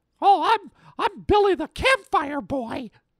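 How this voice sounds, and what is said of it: Character voice. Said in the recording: “I do a voice”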